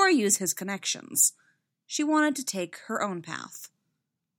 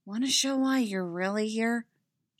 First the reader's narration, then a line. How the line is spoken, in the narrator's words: She whispered